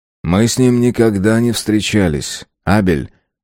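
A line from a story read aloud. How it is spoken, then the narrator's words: Sad. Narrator (Russian): грустно Юнц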